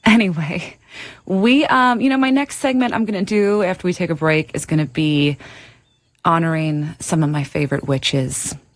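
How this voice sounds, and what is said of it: Old-school Queens New York accent. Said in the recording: “I love my accent. ... it's just very old school. Reminds me of growing up in Queens.”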